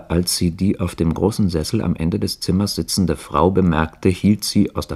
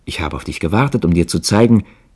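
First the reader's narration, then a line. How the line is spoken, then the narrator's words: Called out. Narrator (German): rief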